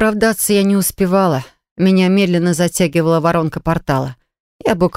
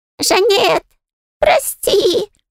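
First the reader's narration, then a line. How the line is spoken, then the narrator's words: Squeaked. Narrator (Russian): пропищал Майер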